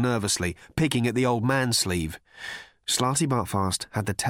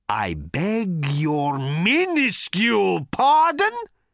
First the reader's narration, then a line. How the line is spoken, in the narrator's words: roared Thor